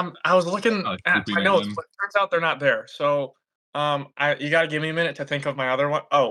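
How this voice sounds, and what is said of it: Usual voice. Nothing is said of it.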